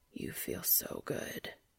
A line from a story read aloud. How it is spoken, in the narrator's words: Cass whispered in his ear